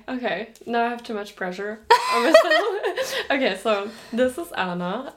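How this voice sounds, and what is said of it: Mixed German-American accent. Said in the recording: “I talk in a German-American accent kind of mixture.”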